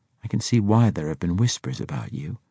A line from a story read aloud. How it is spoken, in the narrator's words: she murmured almost to herself